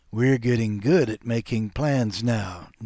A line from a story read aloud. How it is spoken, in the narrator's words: Nina said